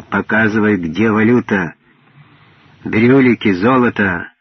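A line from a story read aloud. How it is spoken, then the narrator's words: Sharp interruption. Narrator (Russian): Важа резко ее оборвал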